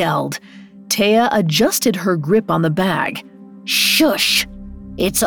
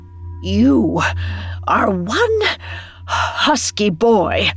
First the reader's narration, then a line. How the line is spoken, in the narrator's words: the witch said between gasps